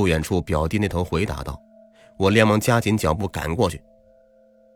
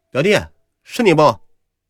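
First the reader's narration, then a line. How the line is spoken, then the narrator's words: Calling out while walking. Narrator (Chinese): 边走还边叫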